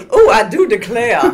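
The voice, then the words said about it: Put-on Southern accent. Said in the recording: “your southern accent”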